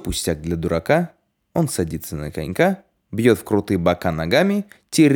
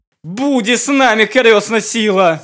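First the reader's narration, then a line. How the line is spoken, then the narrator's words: Shouting. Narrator (Russian): закричал тогда Гаврила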